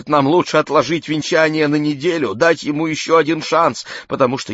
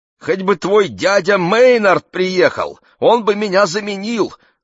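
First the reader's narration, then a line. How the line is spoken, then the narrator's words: Rapid exclamation. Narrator (Russian): воскликнула Анита и зачастила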